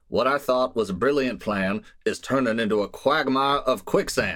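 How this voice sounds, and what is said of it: Put-on Texas accent. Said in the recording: “I'll quote in my best Texas accent.”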